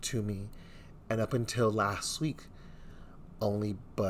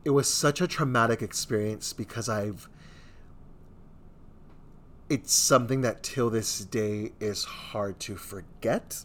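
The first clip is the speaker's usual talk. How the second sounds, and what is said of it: Emotional, tearful voice. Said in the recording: “I'm already getting emotional.”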